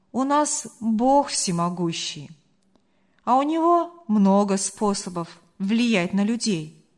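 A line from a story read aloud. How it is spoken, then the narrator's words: Calm reply. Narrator (Russian): спокойно ответил Марк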